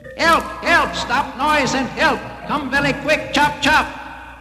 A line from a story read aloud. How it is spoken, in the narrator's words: Poor Long Name No Can Say shouted up to them